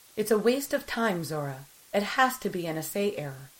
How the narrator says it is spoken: Kais said

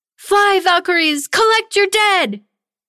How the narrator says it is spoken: Tanya cried out

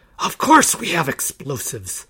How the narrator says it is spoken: the leader hissed

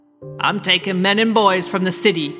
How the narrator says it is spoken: Euron growled when the sharp steel scraped at her head

